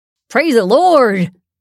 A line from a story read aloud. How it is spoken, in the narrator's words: shouted